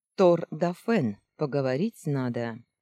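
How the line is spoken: Loud amplified voice. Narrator (Russian): Голос Челгаана, слегка усиленный динамиками, прозвучал так громко в утренней тишине

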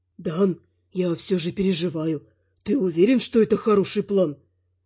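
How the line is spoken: Whispering. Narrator (Russian): зашептал Рой

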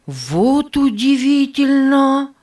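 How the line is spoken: Loud speech. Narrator (Russian): громко сказал Нева

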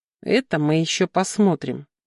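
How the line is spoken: Grumble. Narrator (Russian): проворчала я

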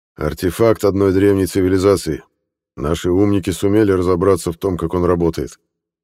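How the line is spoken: Plain. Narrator (Russian): ответил Леонид Петрович

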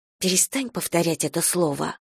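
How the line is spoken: Whispering. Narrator (Russian): прошептала

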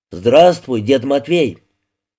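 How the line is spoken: Loud, close to ear. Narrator (Russian): наклонившись к его уху, громко сказал

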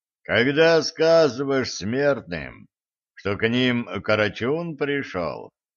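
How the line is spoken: Deep low bass. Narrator (Russian): густым низким басом ответил гость

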